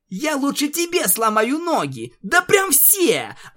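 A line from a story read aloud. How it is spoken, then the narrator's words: Yelling, breathing fast. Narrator (Russian): орала единорожка, начиная дышать еще чаще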